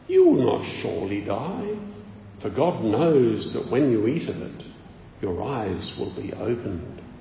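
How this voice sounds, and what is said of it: Put-on voice of a devil character. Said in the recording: “Do you like my imitation of Satan there?”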